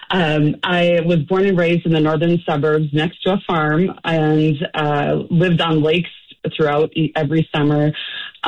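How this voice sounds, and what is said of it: Slight Minnesotan accent. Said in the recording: “I am a native Minnesotan ... I probably have a little accent as a result of that.”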